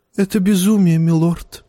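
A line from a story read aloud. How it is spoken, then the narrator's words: Sighing. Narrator (Russian): вздохнул Варис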